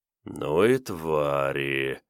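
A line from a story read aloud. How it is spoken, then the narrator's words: Quiet drawl. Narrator (Russian): протянул Шелепин тихо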